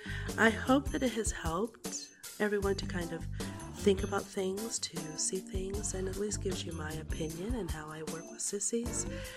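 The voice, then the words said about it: Slightly raspy, softer voice. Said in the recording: “I am doing much better from my COVID... my voice was a little bit raspy, a little bit softer”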